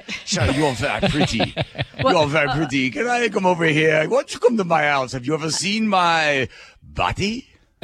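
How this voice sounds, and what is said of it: Put-on Italian accent. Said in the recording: “I'm doing doing an Italian accent, even though I'm Spanish.”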